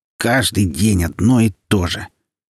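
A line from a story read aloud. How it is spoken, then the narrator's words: Grumbling. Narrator (Russian): Гирлянда ворчала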